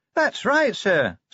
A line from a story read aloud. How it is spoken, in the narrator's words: said Cheery happily